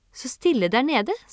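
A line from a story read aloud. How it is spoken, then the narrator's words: Plain. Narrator (Norwegian): sa hun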